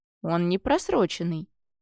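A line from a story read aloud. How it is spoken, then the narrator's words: Calm, teenager. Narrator (Russian): спокойно заметил подросток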